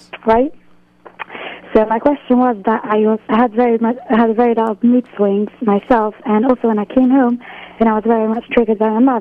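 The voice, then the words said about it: British accent. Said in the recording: “Your British accent is not just British accent”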